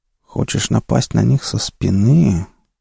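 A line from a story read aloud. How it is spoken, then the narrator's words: Doubtful mutter. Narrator (Russian): с сомнением пробормотал Инг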